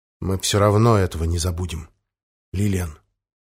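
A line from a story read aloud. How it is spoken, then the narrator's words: Quiet promise. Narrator (Russian): негромко пообещал принц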